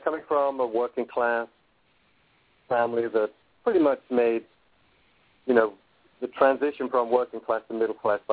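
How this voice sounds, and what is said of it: Slight English accent. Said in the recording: “I grew up in England, as you could probably tell from my accent. I still got a slight English accent.”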